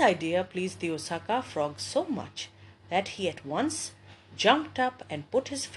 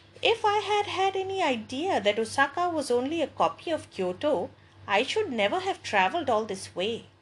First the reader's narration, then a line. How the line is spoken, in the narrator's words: exclaimed the frog from Kyoto